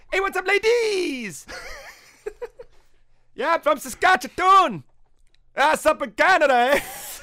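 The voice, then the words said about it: Stereotypical high-pitched Canadian accent. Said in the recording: “the most fucking hilarious, like, most stereotypical, like, high-pitched Canadian accent”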